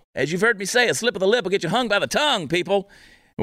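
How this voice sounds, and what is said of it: Southern American accent. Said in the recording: “I get accused all the time of faking a Southern accent.”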